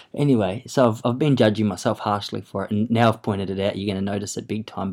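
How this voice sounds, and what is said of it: Broad bogan Australian accent. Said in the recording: “my accent is full-blown bogan in comparison”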